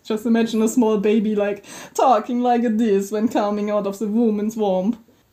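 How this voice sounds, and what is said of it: Exaggerated parody Italian accent. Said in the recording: “It's more like a parody of the Italian accent ... Is it an Italian accent?”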